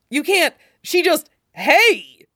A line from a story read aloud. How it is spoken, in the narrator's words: Curly exclaims, looking like he's building up to a real shout